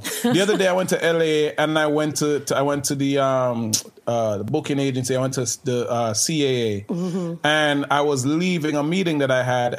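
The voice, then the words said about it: Jamaican accent. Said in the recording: “I have a quote unquote accent ... Yo, you're Jamaican? ... I hear the accent.”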